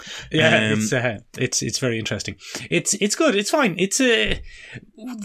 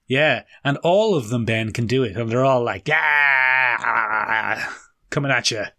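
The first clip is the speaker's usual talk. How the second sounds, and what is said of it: Imitates another person's voice. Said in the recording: “That's pretty good impression of Anne Hathaway.”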